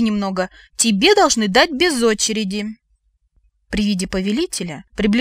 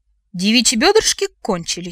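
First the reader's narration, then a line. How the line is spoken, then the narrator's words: Solemn announcement. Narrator (Russian): сообщил Лен, торжественно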